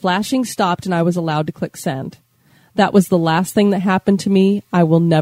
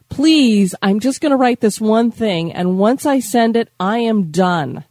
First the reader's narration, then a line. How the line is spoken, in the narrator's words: Frustrated and tired, I yelled out